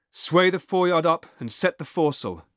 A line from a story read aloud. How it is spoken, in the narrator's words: he cried